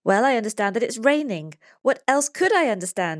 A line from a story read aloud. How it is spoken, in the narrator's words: exclaims Pablo in surprise